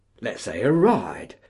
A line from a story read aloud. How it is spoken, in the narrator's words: said Ephraim